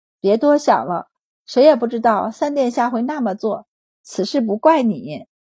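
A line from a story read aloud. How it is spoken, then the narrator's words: Sighing. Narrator (Chinese): 上姑姑叹息道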